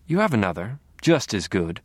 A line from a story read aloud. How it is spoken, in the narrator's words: we said